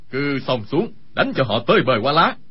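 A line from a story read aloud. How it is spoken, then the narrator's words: Loud shout. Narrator (Vietnamese): Khưu Sử Cơ quát lớn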